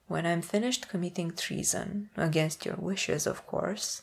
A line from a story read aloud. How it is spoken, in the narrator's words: Napoleon says quietly